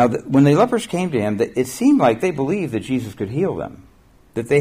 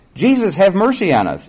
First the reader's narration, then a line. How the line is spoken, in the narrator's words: in a loud voice